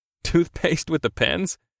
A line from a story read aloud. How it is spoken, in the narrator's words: I chuckled